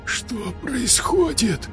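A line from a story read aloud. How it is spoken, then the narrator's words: Whisper. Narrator (Russian): прошептал тот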